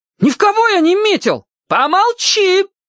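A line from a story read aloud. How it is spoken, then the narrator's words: Mother shrieking. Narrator (Russian): опять взвизгнула мама Эмма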